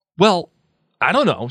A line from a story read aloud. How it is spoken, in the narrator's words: said Harry rather angrily